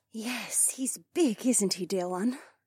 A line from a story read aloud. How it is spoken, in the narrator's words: Shay murmured